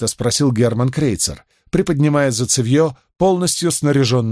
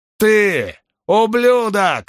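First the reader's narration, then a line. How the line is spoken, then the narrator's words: Yelling. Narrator (Russian): завопил Оуни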